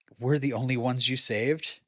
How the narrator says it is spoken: Chrissy sadly asks

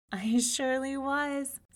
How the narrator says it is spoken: said the princess, laughing

